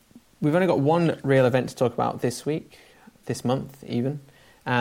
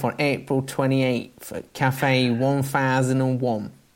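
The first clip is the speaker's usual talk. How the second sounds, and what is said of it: Nasal attempt at Cockney accent. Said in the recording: “That was just a very nasal accent rather than a Cockney one, I think.”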